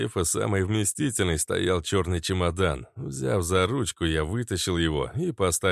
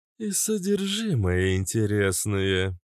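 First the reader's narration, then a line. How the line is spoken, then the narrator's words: Droning boom. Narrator (Russian): прогудела Кобра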